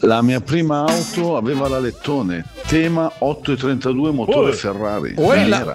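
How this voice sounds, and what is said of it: Brianza regional Italian accent. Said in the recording (Italian): “bell'accento qua, siamo in Brianza”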